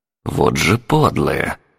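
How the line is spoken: Angry inner thought, old woman. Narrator (Russian): сердито подумала бабка

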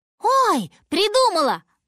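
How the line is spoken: Exclaiming. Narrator (Russian): воскликнула

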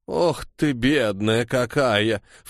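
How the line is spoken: Snorting. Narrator (Russian): фыркнула Пелам

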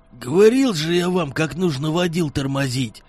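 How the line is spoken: Grumbling. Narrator (Russian): пробурчал старший из них по кличке Енот

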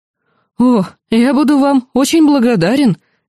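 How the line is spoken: Relieved exhale. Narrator (Russian): облегченно выдохнул он

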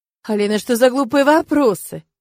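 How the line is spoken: Laughing. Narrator (Russian): рассмеялся он

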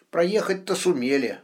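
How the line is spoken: Gloomy grumble. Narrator (Russian): мрачно буркнул мельница

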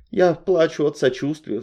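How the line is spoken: Sighing. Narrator (Russian): вздохнула я

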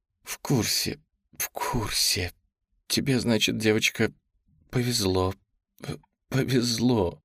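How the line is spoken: Trembling woman's voice. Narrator (Russian): дрожащим голосом говорила женщина

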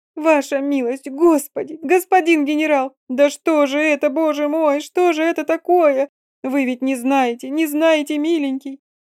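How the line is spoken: Choking on sobs. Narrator (Russian): залитое слезами лицо, цыганка захлебнулась рыданием

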